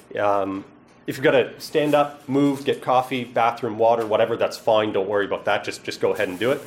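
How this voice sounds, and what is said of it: East Coast Canadian accent. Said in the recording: “I'm told I have an accent. I'm from the East Coast of Canada”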